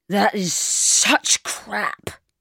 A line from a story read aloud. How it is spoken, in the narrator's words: slurred